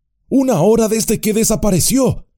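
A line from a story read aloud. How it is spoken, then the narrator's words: Exclaimed. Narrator (Spanish): exclamó Sam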